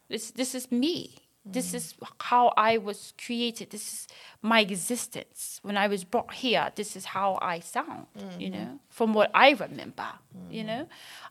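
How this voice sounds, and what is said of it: British accent. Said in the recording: “you wake up with a British accent? ... not only do I have the British accent,”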